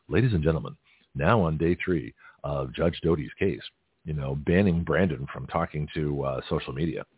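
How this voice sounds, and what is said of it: Mock radio announcer voice. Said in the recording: “I'll give you my radio voice.”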